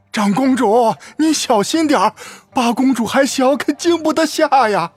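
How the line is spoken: Anxious repeated calling. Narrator (Chinese): 赵福苦着脸…连连喊道

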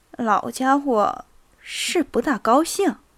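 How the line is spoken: Low voice. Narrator (Chinese): 涅斯维茨基向安德烈公爵低声说

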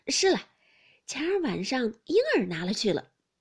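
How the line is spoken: Absent-minded, then laughing. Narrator (Chinese): 一面说着，一面出神，想了一会儿，方笑道

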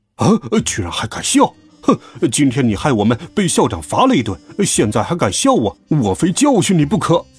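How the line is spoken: Angry. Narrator (Chinese): 巨无霸听到笑声，马上就怒道

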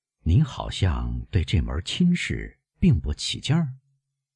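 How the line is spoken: Lowered voice. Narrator (Chinese): 基督山压低声音说

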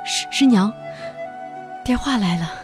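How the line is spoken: Trembling voice. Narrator (Chinese): 向我声音颤抖着说道

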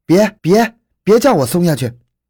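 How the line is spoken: Shout. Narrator (Chinese): 他叫道

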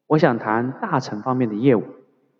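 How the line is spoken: Low voice. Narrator (Chinese): 他低声对办事员说

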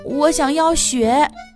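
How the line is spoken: Breathless, panting. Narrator (Chinese): 她喘着气说

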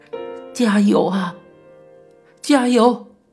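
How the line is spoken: Crying while speaking. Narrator (Chinese): 同一病房的阿姨们边哭边说

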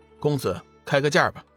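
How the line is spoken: Flat, indifferent. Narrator (Chinese): 龙宇淡淡的说道

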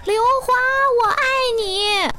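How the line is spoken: Young man shouting. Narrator (Chinese): 一个男生大喊

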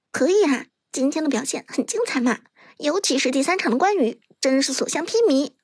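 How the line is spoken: Whispering. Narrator (Chinese): 伍兹小声道

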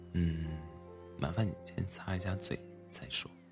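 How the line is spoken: Laughing mother. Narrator (Chinese): 妈妈笑着说

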